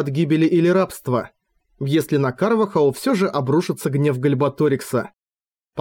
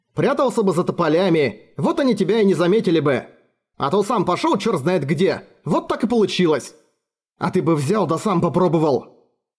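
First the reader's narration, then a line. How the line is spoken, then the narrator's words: Snapping back. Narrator (Russian): огрызнулся Олбрих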